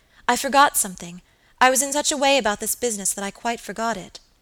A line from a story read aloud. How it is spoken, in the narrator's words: exclaimed Phoebe suddenly